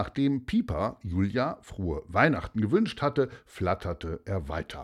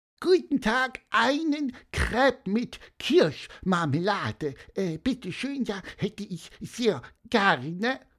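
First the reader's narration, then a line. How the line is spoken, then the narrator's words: Squeaky voice. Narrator (German): piepste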